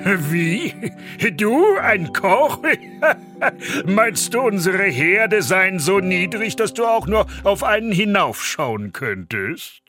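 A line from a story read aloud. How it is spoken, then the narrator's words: Head cook's loud laughing call. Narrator (German): Der Oberküchenmeister brach in lautes Lachen aus und rief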